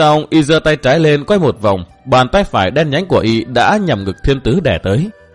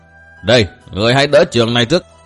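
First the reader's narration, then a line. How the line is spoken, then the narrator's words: Commanding shout. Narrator (Vietnamese): Thiết Diện Điều Trảo lại quát bảo tiếp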